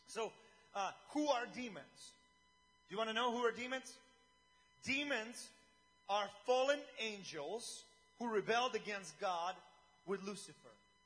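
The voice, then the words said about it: Speaker with a noticeable accent. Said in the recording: “sometimes I'm jealous of you people who don't have an accent... I just feel like I have a thorn in my tongue”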